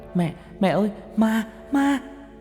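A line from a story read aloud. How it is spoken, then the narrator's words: Frightened scream. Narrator (Vietnamese): hét toáng lên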